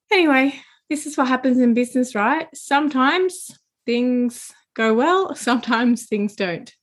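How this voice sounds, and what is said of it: Strained voice after losing it. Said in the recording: “my voice just gave up. It's still not completely back. I don't know if you can hear that, but I know that I can. ... I've had a few weeks of coughing and losing my voice.”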